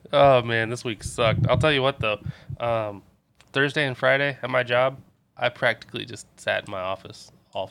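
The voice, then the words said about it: Nasal, congested voice. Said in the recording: “probably hear it in my voice ... This week I'm fucking nasally”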